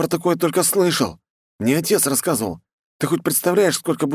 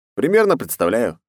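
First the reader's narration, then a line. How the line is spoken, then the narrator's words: Wry snort. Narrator (Russian): хмыкнул я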